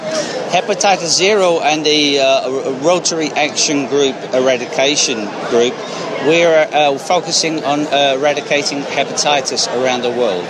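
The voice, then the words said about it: British accent. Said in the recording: “where are you from with that accent? ... I'm originally from the UK”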